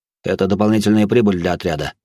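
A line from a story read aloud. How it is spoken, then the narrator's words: Tired. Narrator (Russian): добавил он и устало потер глаза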